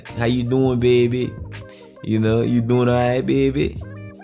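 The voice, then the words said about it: Put-on New Orleans accent. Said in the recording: “they all got that New Orleans accent ... Then I saw a white person say, "Hey, baby."”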